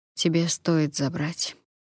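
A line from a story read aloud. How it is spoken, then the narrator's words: Quiet agreement. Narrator (Russian): тихо согласился Калит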